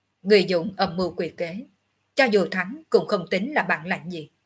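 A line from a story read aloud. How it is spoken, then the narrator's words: Cold. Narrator (Vietnamese): Ngọc Hư Tử lạnh lùng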